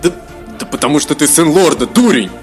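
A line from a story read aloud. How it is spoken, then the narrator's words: Snapping retort. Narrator (Russian): Огрызнулся Эзраэль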